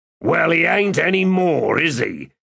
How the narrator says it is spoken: Lef said in a half snarl

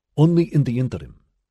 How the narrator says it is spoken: she said, aware that she was speaking too quickly, hating herself for it, despising her sudden deference to the man

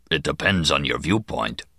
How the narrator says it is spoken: The Kazin rumbled

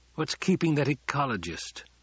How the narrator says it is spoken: The Duke muttered

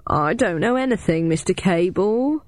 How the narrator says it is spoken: whined

